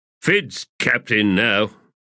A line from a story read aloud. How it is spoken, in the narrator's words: Balm growled